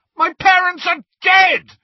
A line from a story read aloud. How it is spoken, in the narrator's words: Harry bellowed